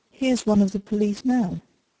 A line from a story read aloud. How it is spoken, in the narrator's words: said Bryce calmly